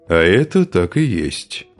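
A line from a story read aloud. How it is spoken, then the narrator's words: Calm reply. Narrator (Russian): спокойно ответил Хузарин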